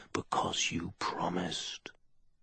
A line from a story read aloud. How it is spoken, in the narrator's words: the jewel whispered